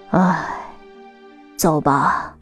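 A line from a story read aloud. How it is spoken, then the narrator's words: Sighing. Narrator (Chinese): 外婆叹了口气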